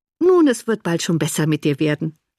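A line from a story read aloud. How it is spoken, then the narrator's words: Cheerful. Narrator (German): sagte Anne fröhlich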